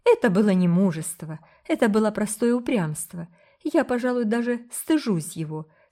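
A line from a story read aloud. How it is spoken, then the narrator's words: Joyful. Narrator (Russian): сказала Рила, радостно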